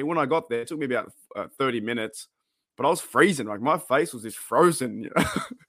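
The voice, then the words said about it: Australian accent. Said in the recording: “he heard my accent... I'm from Australia”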